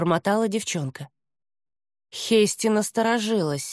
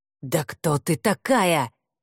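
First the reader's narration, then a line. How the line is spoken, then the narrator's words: Growl. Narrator (Russian): прорычал Хель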